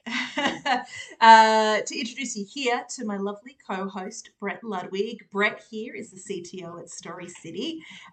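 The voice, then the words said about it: Australian accent. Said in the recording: “I have the Australian accent”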